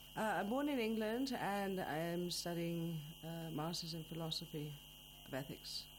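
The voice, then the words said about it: Noticeable English accent. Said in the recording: “your accent makes it quite obvious”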